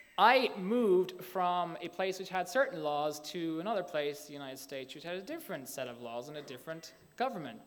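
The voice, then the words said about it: Slight Irish accent. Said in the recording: “I'm from Ireland. I don't know if you picked that up in my slight brogue. Hard to know if I've lost it”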